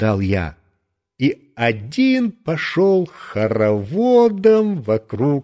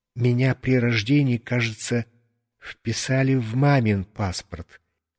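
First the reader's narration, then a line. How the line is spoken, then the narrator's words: Quiet. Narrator (Russian): тихо сообщил я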